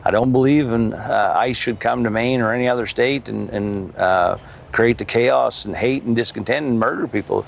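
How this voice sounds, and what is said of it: Northern American accent. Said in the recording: “you hear that sort of northern accent”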